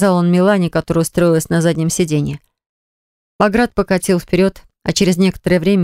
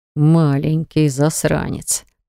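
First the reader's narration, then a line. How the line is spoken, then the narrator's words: Quiet growl. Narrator (Russian): прорычал Баграт тихонько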